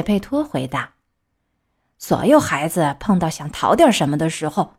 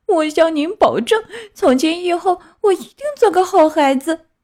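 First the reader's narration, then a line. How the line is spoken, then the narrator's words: Puppet, crying. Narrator (Chinese): 木偶哭着说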